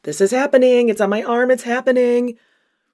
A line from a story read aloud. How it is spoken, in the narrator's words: she's screaming, saying